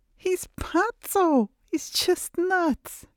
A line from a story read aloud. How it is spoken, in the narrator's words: She read it again and again, laughing, her eyes filled with tears of relief and happiness